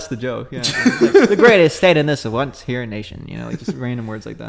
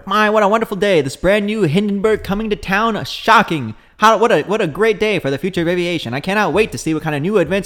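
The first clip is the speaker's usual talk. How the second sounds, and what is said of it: Nasal 1940s newsreel reporter voice. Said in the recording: “the 40s reporter ... nasal? ... the tempo”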